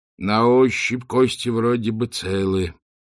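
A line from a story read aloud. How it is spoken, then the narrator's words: Heavy exhale. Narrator (Russian): тяжело выдохнул Ринсвит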